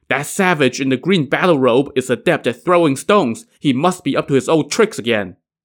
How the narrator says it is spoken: They quickly informed Prince Ye Lu

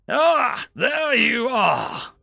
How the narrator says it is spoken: the drill instructor called out

